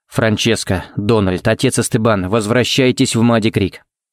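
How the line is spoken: Very even, calm. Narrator (Russian): сказал он самым ровным и спокойным тоном, на какой был способен

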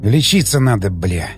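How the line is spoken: Frightened mutter. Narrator (Russian): Пробормотал я, чувствуя, как со страху пробивает потом

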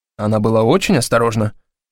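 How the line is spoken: Plain. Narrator (Russian): сказал я

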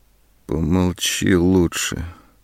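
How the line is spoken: Muffled interruption. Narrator (Russian): глухо перебила она

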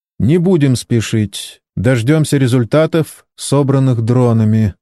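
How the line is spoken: Calm reply. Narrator (Russian): спокойно ответил Кен

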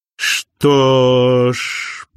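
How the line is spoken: Sly drawl. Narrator (Russian): протянул Винс с хитрой ухмылкой

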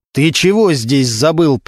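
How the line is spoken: Growled. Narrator (Russian): прорычал Регинский

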